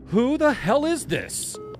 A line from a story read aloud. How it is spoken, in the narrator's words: I shouted into the receiver